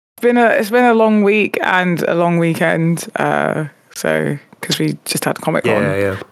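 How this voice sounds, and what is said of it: Tired, slightly hoarse voice. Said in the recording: “I am also very tired, and my voice is slightly hoarse.”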